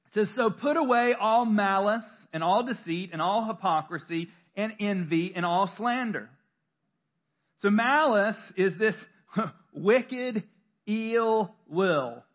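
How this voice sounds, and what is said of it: Southern US accent. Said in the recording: “Sounded really southern there. I am from North Carolina.”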